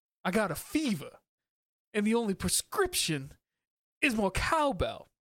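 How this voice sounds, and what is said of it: Christopher Walken impression, halting start-stop delivery. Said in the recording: “do a Christopher Walken impression ... You just have to like start and stop a lot randomly ... it's a little voice ... it's jumping out of out of your chest”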